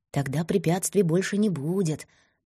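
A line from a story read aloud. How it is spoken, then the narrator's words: Whispering. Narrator (Russian): нашептывал несчастный доброжелатель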